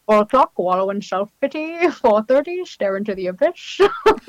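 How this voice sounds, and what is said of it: Grinch cartoon character voice. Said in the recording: “my Grinch impersonations”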